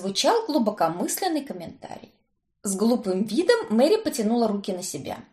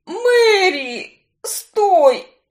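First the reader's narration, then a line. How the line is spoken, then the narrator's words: Groaning in pain. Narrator (Russian): простонал он, скривившись от боли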